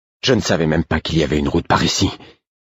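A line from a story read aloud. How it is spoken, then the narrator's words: Breathless apology. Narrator (French): dis-je en guise d'excuse d'une voix haletante à Œil de Nuit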